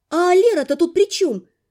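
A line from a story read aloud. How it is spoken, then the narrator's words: Exclaimed. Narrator (Russian): вслед воскликнула я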